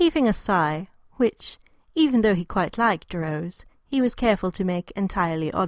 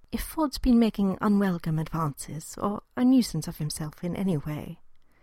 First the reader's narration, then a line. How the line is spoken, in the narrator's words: began gently